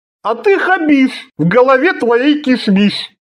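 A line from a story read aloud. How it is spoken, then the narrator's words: Announcing, then guffawing. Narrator (Russian): объявил круглолицый и захохотал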